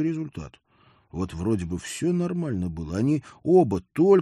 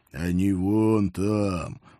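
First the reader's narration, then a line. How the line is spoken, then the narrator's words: Good-natured mutter. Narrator (Russian): благодушно буркнул один из инеистых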